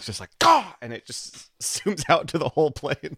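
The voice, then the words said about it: Imitated pained exclamation and exhale. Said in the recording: “That was a good Michael impression did with the noise. That was good. ... the sudden pain. ... The exhale.”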